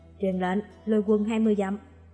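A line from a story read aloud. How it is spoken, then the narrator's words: Shouted command. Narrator (Vietnamese): Chàng quát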